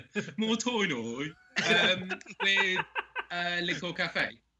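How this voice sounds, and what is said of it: Put-on Spanish accent. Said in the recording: “I'm doing it in my Spanish accent”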